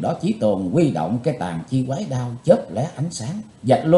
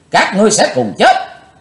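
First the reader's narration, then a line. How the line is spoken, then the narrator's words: Loud angry shout. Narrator (Vietnamese): Chí Tôn chùi sạch máu miệng quát lớn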